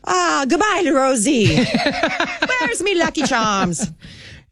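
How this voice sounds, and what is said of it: Put-on Irish accent, somewhat pirate-like. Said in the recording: “I don't do an Irish accent ... no, I don't either. Usually it turns into sort of pirate.”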